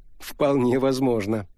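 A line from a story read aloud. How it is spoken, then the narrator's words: Laughing. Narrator (Russian): рассмеялась Лариса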